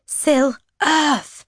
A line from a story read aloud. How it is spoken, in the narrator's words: I shout